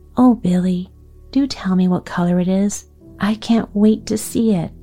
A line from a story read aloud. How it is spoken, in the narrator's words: Maida begged